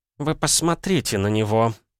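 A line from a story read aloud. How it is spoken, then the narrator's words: Muttered aside. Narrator (Russian): пробурчала она в сторону Левиант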